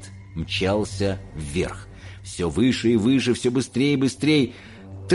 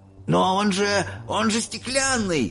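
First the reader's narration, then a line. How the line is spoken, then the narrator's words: Shouted, old man. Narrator (Russian): выкрикнул дедушка Джо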